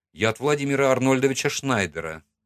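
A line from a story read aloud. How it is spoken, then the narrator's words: Calm. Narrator (Russian): спокойно сказал я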